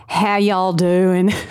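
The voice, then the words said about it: Put-on Southern US accent. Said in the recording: “I was doing a Southern accent there. It was a joke. ... It was a good Southern accent. ... It was a really good Southern accent”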